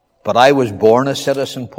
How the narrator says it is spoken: Paul replied

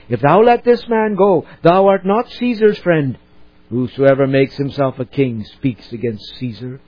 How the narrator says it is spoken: the Jews cried out, saying

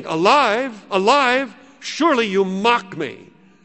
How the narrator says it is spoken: said, exclaiming

